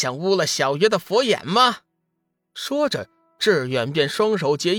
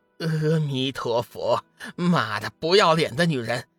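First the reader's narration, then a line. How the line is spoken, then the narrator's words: Angry. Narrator (Chinese): 志远宣了一声佛号，随后怒道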